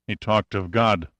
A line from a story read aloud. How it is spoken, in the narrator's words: Pitt murmured